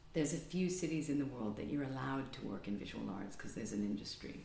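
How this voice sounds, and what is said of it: Non-native English accent. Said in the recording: “you may have noticed my accent isn't English... I wasn't born here”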